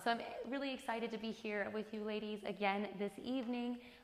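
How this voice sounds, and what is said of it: Weak, strained ailing voice. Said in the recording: “my voice is not quite there this evening ... forgive me if I have a coughing fit ... this is actually the best it has sounded all day”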